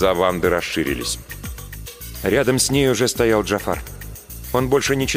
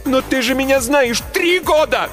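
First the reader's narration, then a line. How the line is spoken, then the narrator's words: Shouting. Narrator (Russian): Закричала я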